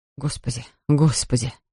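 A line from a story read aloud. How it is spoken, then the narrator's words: Muttering. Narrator (Russian): бормотал он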